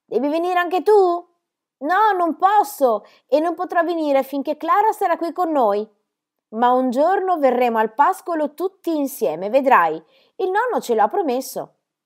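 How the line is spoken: Shouting to girl. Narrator (Italian): gridò a Heidi

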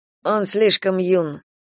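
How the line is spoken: Quiet, to no one. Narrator (Russian): тихо промолвил Кейран, никому не обращаясь

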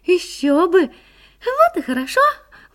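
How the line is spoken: Exclaiming. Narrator (Russian): воскликнула Минутка

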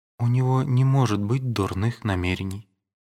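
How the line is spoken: Weak voice. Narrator (Russian): отвечала она слабым голосом

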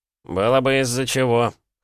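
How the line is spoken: Scoffing. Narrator (Russian): хмыкнул Али, сын владельца дома

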